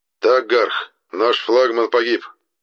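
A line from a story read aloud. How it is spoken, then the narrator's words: Gloomy speech. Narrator (Russian): мрачно произнес Лирк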